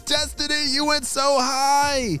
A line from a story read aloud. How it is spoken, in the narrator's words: shouted Ava